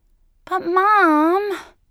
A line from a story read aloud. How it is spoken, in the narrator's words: Melissa had whined